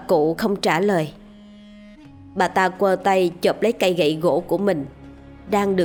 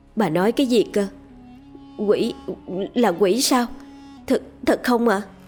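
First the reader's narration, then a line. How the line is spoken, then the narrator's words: Terrified stammering. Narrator (Vietnamese): với khuôn mặt vô cùng hoảng sợ, lắp bắp nói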